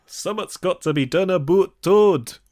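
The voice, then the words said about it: Poor put-on Scottish accent. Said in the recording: “in a truly terrible Scottish accent ... I'm even doing the voice actor some credit there. Mine wasn't great, but it was pure Scots magic compared to what the hell was going on in this film”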